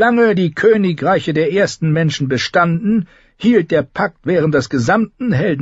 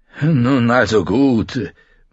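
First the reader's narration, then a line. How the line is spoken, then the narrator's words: Murmured. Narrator (German): murmelte Luwin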